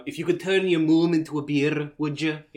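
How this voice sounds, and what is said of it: Put-on Scottish Merida cartoon accent. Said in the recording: “we could always just do the Merida accent ... Disney brave”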